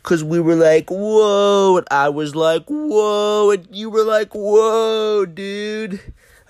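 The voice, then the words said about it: Imitates Crush the Turtle's voice. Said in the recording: “That's my impression on Crush.”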